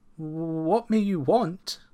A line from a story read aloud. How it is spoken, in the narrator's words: asked timidly